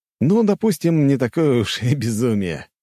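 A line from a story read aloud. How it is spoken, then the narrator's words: Short chuckle. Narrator (Russian): я коротко хохотнул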